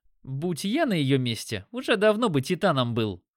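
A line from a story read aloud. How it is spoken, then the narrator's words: Snorting smirk. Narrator (Russian): хмыкнул Димон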